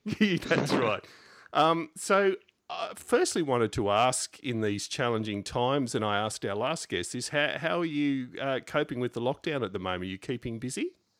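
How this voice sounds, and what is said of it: Australian accent. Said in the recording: “accent can be a bit difficult to understand ... this damn Aussie accent”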